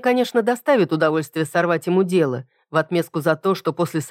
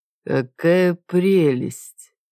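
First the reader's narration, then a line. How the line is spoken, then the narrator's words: Drawn-out. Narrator (Russian): протянул я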